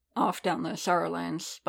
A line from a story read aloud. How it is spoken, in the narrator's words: Boba murmured